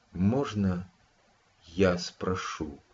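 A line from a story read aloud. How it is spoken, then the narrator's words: Quiet question. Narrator (Russian): тихо поинтересовалась она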